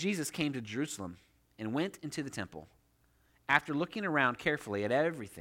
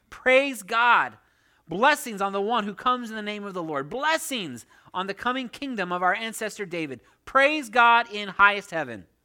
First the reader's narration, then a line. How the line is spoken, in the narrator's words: the people all around him were shouting